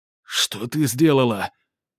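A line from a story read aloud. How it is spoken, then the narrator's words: Hoarse wheeze. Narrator (Russian): толстяк изо всех сил врезал себе кулаком в грудь и прохрипел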